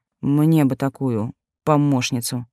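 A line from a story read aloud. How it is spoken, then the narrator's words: Amused snort. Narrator (Russian): хмыкнул ящер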